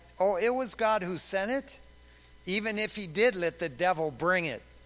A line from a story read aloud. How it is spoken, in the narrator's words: the dear old saint quickly replied